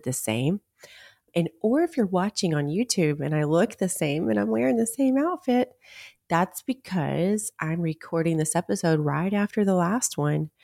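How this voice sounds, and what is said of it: Raspy, quiet, nearly lost voice. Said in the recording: “my voice sounds a little raspy or just quiet, that's because I'm really close to losing my voice.”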